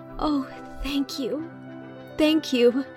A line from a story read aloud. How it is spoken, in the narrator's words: cried Anne, clasping the packet rapturously